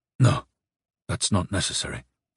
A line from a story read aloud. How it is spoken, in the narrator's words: he said quietly